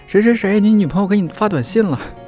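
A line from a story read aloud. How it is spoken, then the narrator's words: Weird yelp. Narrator (Chinese): 发出一声怪叫，说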